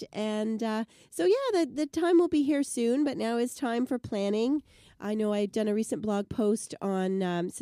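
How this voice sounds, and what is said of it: Sick-sounding voice. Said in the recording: “As people can tell from my voice, been a little under the weather”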